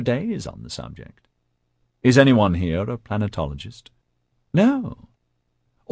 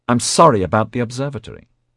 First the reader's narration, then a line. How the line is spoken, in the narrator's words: Rennie said sharply